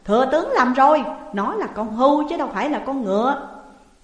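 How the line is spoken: Loud laughing king. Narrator (Vietnamese): Vua Nhị Thế cười lớn rồi nói

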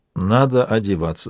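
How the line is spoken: Plain. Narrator (Russian): сказала она

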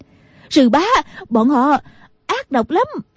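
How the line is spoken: Crying out. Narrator (Vietnamese): Nghi Hòa la lên

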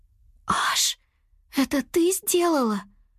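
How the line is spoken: Whisper. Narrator (Russian): прошептала она

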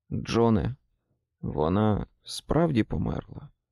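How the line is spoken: Whisper after long silence. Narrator (Ukrainian): після довгого мовчання, він вимовив пошепки

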